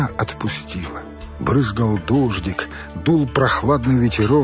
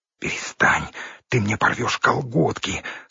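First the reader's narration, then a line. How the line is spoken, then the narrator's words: Stifled whisper. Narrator (Russian): слышался сдавленный шепот слева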